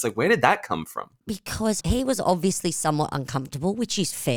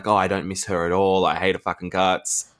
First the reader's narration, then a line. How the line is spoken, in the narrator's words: he's grumbling to Sandoval